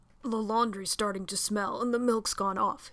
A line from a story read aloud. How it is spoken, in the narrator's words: rasped, trying to gain his feet